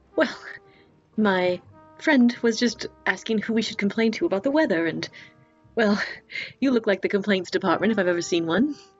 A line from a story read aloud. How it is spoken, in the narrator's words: Nora will laugh, and she'll say